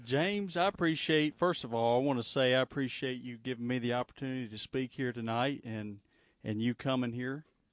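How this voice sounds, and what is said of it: Southern American accent. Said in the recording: “I love the accent. You know, we're all Southerners here. Sometimes it's a little, you know, accents are a little more Southern than others.”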